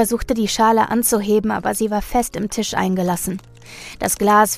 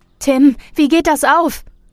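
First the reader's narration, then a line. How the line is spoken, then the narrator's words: Villagers shouting over each other. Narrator (German): Die Dorfbewohner schrien jetzt alle durcheinander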